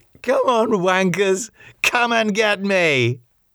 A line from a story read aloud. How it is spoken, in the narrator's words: She laughed and called